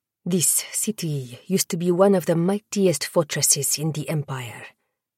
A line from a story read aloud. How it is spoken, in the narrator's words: Baptiste murmured